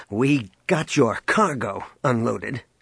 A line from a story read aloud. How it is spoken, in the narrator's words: he snapped